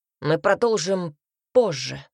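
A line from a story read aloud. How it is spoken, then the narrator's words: Growled. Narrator (Russian): прорычал Альберт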